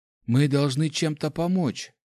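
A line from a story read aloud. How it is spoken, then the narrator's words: Bewildered. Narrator (Russian): растерянно произнесла Нами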